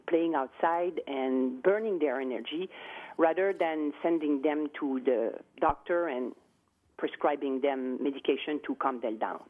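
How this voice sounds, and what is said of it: French accent. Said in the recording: “we can tell from your accent that I'm guessing France”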